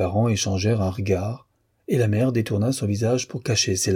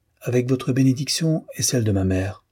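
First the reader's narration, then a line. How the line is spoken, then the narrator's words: Confident voice. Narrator (French): répondit-elle d'une voix assurée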